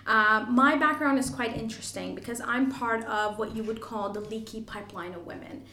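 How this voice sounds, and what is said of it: Canadian English accent. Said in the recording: “I'm Canadian, you probably can tell with the accent.”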